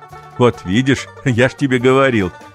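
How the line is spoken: Father laughing. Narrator (Russian): засмеялся папа

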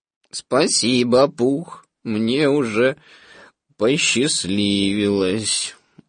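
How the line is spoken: Dejected reply. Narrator (Russian): уныло ответил Иоя

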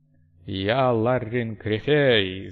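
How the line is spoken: Deep, enveloping voice. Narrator (Russian): заговорил ботан глубоким, обволакивающим голосом

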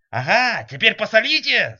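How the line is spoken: Yelling. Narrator (Russian): заорал Фиолетов

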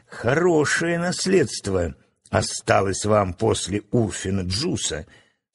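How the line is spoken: Laughing speech. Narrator (Russian): смеясь сказал Ружера

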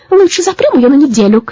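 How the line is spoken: Witch shouting. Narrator (Russian): крикнула травяная ведьма

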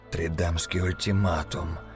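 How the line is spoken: Whispered. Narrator (Russian): прошептал ведьмак

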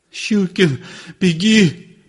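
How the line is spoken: Sobbing mumble. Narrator (Russian): промычал он, всхлипывая

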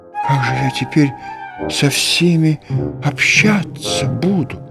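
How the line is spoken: Frightened whisper. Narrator (Russian): Он побледнел и прошептал

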